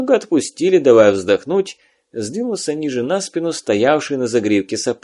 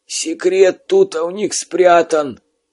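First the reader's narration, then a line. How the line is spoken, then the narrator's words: Wheezing in pain. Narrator (Russian): такую боль просипел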